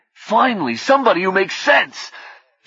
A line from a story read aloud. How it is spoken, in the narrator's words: Frederick said angrily